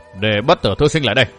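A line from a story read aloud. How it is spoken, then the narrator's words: Cold, commanding. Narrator (Vietnamese): Tổng quản Khâu Đại Khí giọng lạnh lùng nói như ra lệnh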